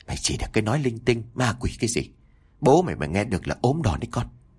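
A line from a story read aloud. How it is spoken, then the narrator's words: Soft scolding. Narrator (Vietnamese): bà Toán khẽ gắt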